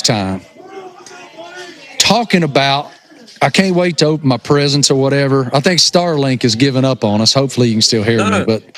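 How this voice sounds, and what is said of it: Thick rural Appalachian accent. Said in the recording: “I am such a hillbilly redneck that it's unbelievable how thick my, rural Appalachian accent is. And my buddies, that's how we talk.”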